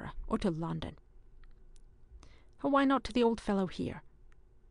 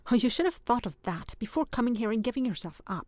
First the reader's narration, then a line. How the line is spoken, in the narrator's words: exclaimed Ewan